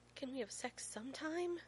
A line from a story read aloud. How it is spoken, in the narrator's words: John whimpers